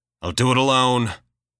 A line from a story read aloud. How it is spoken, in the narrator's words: Gray growls